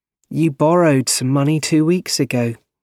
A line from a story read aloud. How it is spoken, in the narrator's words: she said kindly